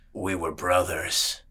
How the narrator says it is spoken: rumbled, his voice low and rasping

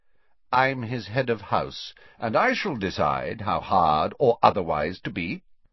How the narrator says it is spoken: said Snape curtly

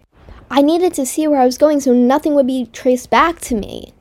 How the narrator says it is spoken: she yelled

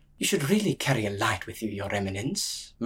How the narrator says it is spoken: murmured junior priest

